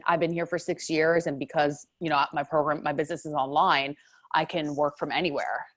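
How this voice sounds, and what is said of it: New York accent. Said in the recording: “I'm originally from New York, so people might hear that accent come through”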